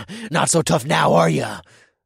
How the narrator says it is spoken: I growled into his ear

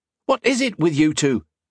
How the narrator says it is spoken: snapped

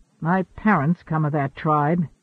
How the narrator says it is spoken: he rumbled

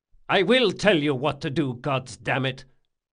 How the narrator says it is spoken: Locke spat

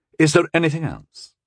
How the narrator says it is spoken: He asked stiffly

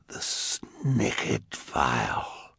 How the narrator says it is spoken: he said, in a hushed whisper

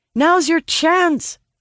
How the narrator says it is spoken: I shout

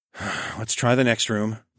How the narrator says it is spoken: I said with a sigh

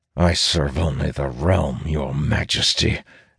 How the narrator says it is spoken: Elias replies through gritted teeth

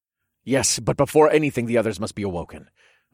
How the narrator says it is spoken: I said in a rushed voice

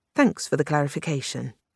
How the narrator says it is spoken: Bowles said dryly

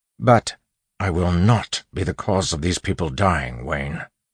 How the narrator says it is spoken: Waxillium snapped, voice much louder than he'd intended

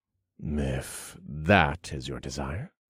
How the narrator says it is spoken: I grunted with a smile

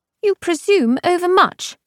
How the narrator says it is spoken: she snapped

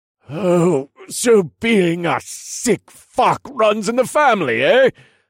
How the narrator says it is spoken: I grunted as I held my blade steady against the force of his mighty arms

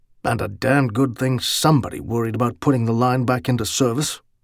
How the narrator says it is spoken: he told himself grimly

